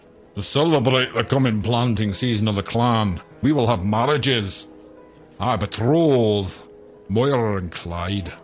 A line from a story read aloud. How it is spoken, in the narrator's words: He shouted to the muttering crowd